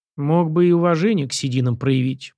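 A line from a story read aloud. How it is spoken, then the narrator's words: Stubborn grumbling. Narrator (Russian): проворчал парень из чистого упрямства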